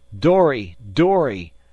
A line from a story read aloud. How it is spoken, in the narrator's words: a yell of